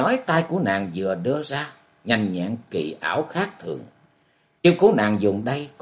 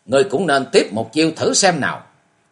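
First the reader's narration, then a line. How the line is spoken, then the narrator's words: Clear-voiced shout. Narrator (Vietnamese): Quyết nữ Cam Tiểu Mai giọng trong trẻo quát tháo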